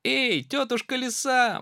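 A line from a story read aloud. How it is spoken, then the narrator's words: Little mouse shouting. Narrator (Russian): мышонок закричал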